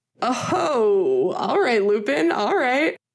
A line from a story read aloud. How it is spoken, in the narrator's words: Finn laughed